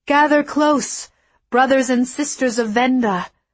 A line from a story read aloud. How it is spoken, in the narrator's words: I called out to them